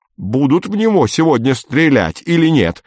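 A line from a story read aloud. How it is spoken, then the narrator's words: Strained yell. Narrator (Russian): заорал Фокин натужным голосом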